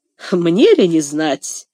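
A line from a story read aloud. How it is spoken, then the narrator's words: Dry. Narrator (Russian): сухо сказала Касси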